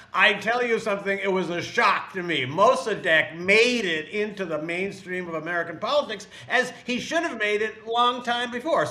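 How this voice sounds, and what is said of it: Imitates another person's voice. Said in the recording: “That's a good Bernie impression.”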